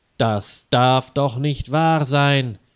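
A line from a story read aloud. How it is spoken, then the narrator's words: Loud angry shout. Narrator (German): rief Herr Weißer laut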